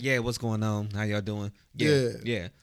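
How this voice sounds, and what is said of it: Low, deep mumbling voice. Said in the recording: “I do be talking in a low ass voice when y'all call me sometimes ... I be in a low ass voice like”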